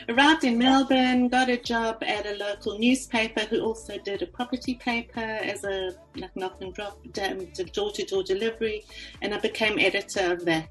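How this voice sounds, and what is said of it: South African accent. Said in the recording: “I'm from South Africa, as you can hear from my accent.”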